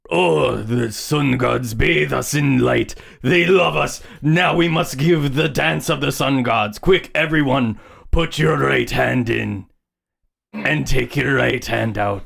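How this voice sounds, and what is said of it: Hard-to-place put-on accent. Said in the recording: “I can't quite tell what that accent is.”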